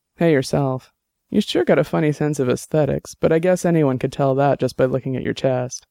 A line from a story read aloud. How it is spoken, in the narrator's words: Dex chuckled and said